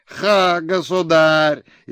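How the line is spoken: Frantic shout over noise. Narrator (Russian): истошно стараясь заглушить шумливый, беснующийся в плясе хоровод, закричал Лысов

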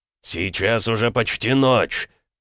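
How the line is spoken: Bark. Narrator (Russian): рявкнул Макеев

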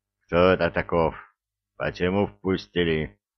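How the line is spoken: Menacing rumble. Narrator (Russian): грозно пророкотал хан

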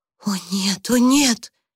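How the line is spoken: Breathless exhale. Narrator (Russian): выдохнула Люси

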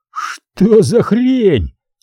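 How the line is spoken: Yelling over gunfire. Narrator (Russian): орал Макс, пытаясь перекричать выстрелы и шум дождя

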